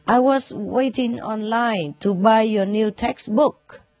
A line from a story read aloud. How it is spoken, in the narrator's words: the student replied nervously